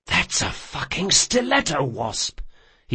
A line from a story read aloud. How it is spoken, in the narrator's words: he whispered to Jean